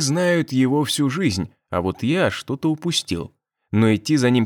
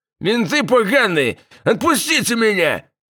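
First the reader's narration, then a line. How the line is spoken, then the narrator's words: Yelling. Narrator (Russian): вопил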